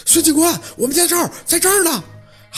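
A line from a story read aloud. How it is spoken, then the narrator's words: Echoing shout. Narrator (Chinese): 喊的这林子里的全都是回音儿啊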